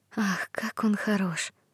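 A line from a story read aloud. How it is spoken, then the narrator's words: Girl's whisper. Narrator (Russian): шепнула девочка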